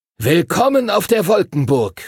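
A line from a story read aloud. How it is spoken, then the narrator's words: Called out. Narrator (German): rief Master Duncan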